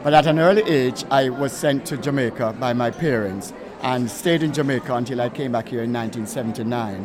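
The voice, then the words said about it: Jamaican accent. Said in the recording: “I was born in Britain, although I have a Jamaican accent.”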